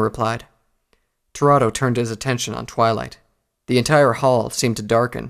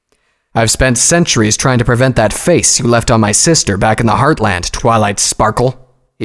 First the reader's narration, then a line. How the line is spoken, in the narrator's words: boomed